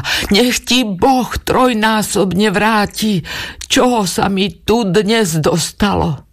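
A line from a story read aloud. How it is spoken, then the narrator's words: Loud cry. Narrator (Slovak): nahlas vykríkla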